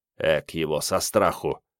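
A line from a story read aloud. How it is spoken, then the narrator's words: Young man's embarrassed mutter. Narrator (Russian): пробормотал в некотором смущении молодой Керст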